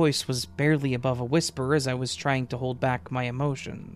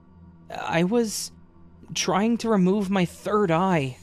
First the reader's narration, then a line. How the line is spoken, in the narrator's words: whimpered out, sobbing uncontrollably